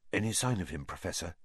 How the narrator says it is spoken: asked Percy in a whisper

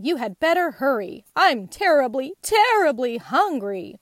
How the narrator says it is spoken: growled the lion

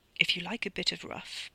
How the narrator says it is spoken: Paul whispered

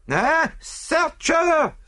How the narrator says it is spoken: screamed the other

